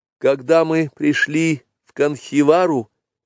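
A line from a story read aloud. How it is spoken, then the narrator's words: Timid speech. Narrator (Russian): робко сказала Месуа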